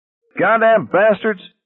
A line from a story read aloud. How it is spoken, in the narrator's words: Parker was screaming